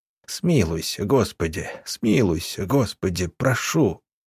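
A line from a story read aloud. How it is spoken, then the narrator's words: Quiet whisper. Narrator (Russian): Вадим Георгиевич тихо шептал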